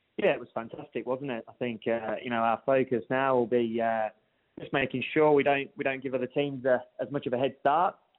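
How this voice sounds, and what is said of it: English accent. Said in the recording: “Nice accent there, no doubt stemming from another part of the world ... you picked up on that accent. From England originally”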